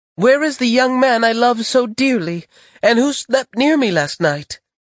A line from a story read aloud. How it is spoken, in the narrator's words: she cried